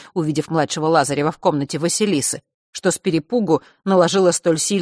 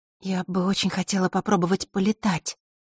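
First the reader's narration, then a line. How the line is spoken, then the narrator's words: Timid. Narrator (Russian): робко произнесла Василиса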